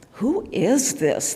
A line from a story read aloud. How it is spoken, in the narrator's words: they asked